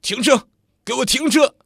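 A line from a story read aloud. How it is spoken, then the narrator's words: Loud shouting. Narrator (Chinese): 徐丽大声叫着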